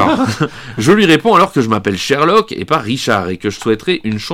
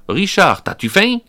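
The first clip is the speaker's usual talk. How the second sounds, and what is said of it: Québécois accent. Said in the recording (French): “un homme me dit avec un accent québécois”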